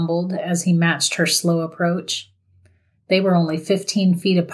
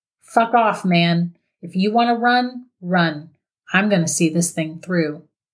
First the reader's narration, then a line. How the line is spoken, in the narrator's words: Ben firmly stated